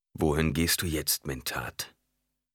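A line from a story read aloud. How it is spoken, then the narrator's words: Calm question. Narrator (German): fragte ruhig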